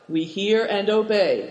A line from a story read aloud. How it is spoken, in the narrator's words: they said